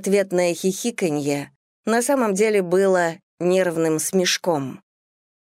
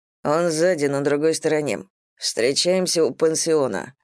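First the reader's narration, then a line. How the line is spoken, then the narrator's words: Quiet, flat voice. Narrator (Russian): произнес Диксон таким тихим, бесцветным голосом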